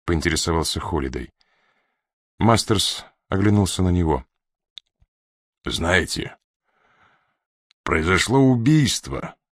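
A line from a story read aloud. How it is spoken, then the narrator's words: Weighty, hoarse, hesitant, suspicious. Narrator (Russian): проговорил он веско, хрипло, с легкой заминкой, свидетельствовавшей о зародившихся подозрениях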